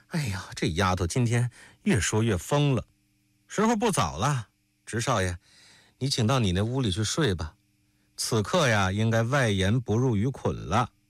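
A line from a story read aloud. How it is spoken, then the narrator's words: Laughing, barely able to speak. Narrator (Chinese): 沈娘笑得说不上话来，弯了腰忍了一会儿才说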